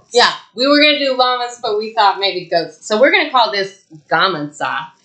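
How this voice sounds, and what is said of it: Thick Texan accent. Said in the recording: “my thick-ass Texan accent”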